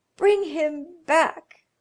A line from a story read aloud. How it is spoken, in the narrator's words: cried the old woman